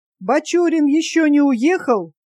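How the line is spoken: Loud official shout. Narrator (Russian): начальник призывного пункта громко крикнул

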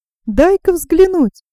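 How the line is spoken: Laughing young man. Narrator (Russian): сказал молодой человек, смеясь

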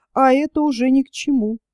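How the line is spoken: Gentle reproach. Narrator (Russian): ласково пожурил Меньшинов

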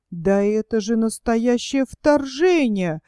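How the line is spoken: Stunned duke exclaiming. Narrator (Russian): воскликнул ошеломленный герцог

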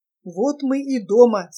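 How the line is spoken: Wild yell. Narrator (Russian): сказал спутник и заорал диким голосом

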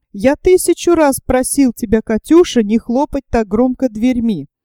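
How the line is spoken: Plain. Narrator (Russian): сказал он

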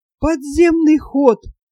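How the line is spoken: Old man breathless. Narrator (Russian): выдохнул старик

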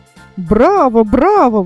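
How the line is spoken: Exclaimed. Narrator (Russian): воскликнул Тюбик

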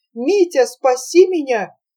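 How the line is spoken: Hysterical cry. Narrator (Russian): Авдотья Фоминишна вскрикнула в истерике

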